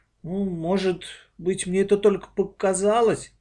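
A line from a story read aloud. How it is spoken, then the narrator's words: Uncertain objection. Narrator (Russian): неуверенно возразила Аня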